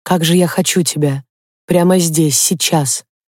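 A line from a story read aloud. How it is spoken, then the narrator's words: Breathless whisper. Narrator (Russian): шептал он сбивчиво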